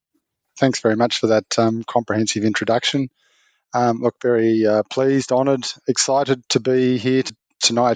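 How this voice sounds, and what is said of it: Australian accent. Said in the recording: “it's great to hear an Australian accent”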